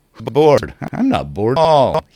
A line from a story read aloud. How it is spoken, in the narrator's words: said, and started laughing